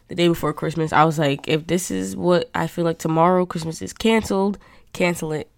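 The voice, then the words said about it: Nasal, stuffed-up voice. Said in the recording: “I'm getting over a cold ... I sound very nasally. ... I'm sounding very nasally. ... just a little bit stuffed up”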